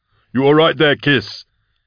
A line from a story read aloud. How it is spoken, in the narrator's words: he yelled over the cannon's roar